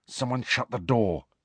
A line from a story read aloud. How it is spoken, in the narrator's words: Harry muttered